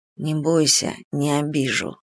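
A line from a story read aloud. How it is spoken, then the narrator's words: Very quiet. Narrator (Russian): произнес он совсем тихо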